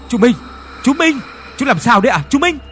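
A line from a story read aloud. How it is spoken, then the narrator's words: Worried shout. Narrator (Vietnamese): Đại hét lên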